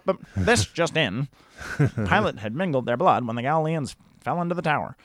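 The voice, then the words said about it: Old-time radio announcer voice. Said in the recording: “I love your old-time radio voice, dude. And I love just a little bit of, like, telegraph.”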